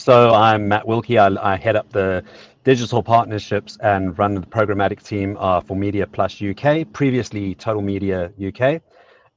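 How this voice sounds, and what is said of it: South African-influenced accent. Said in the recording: “you can tell from my accents, I've worked most of my career in South Africa”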